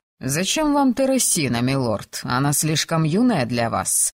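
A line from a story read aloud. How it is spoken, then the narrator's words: Mocking reply. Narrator (Russian): насмешливо отозвался он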